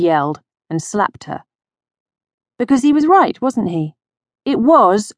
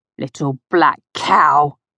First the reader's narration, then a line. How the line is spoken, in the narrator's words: he spat at